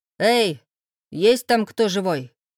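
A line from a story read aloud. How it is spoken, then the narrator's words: Barked from the yard. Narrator (Russian): Рявкнули со двора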